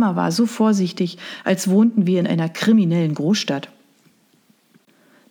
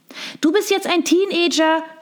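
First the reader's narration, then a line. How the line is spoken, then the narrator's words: Bright tinkling call. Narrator (German): rief sie mit ihrer Stimme, die wie das Klingeln winziger Glocken klang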